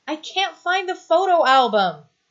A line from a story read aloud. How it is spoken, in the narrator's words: Stiles shouts back, trying to squirm free